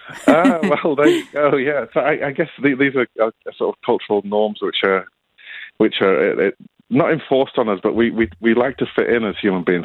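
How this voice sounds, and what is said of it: Northern English accent, flat vowels. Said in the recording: “my accent, I'm not a Sydney local. I grew up in the north of England, so my vowels are flat ... I seem to have picked up absolutely zero of an Australian accent”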